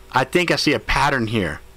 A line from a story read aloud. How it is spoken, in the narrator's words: yelled Sparkles